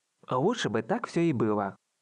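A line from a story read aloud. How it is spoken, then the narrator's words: Wry snort. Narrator (Russian): хмыкнул Ранта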